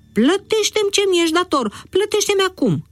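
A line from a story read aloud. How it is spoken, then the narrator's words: Shouted angrily. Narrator (Romanian): a strigat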